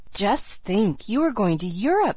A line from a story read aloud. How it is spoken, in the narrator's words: said Sarah Ray in an awestruck tone